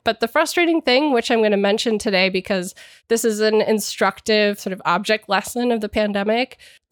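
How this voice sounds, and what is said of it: Froggy, nasal voice. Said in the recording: “my voice is a little off or I sound froggy or nasally today. I'm getting over a cold.”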